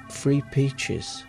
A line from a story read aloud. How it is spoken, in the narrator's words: whispering